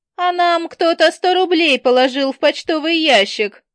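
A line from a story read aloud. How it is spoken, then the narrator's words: Joyful children's shouting. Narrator (Russian): радостно закричали ребята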